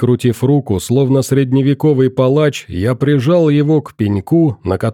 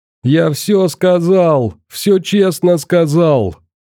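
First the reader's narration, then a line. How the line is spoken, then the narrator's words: Condemned man sobbing, yelling. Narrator (Russian): плача орал смертник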